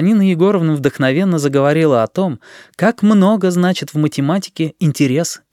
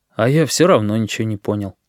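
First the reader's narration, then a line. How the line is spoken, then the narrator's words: Sad statement. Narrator (Russian): Мишка Маслюк грустно сообщил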